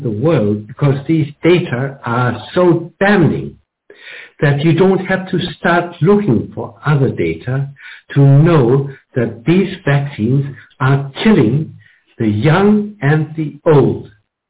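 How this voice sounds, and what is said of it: German accent. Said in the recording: “is from Germany, and you'll be able to tell that with his wonderful accent.”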